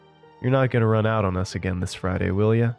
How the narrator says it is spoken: she teasingly asked

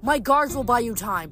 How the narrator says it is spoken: Hilla shouted

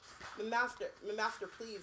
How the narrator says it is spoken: Winky stammered

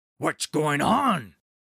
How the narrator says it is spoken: shouted Olaf

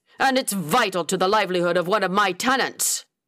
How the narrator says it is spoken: Freeman growled

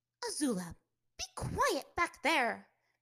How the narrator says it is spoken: Miss Kwan snapped

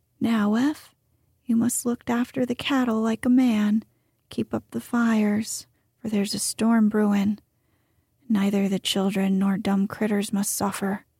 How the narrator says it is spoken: said Mr

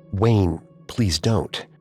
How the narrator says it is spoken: Knowing Wayne would try to kill him again, Johnny muttered

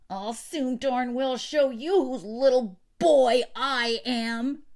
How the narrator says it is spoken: retorted Benjamin in a ferocious voice

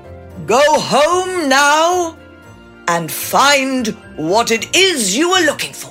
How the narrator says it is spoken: the Oracle boomed

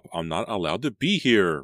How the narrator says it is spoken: Randy cried

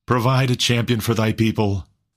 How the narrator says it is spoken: cried a voice among the crowd

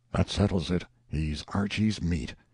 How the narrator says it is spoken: There was no noisy demonstration, but all about the house one voice after another muttered

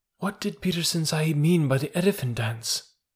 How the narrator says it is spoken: He said at last, softly to his mother

